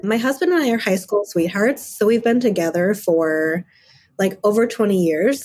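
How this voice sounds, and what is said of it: Voice not fully recovered from illness. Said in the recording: “I'm just getting over COVID, so my voice is still back to 100%”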